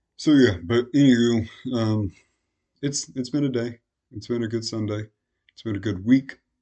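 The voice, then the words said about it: Strained, fading voice. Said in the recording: “I'm really very much losing my voice.”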